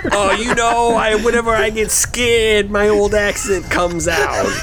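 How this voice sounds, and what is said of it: Bad put-on Brooklyn accent. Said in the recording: “the worst Brooklyn accent I've heard in my life”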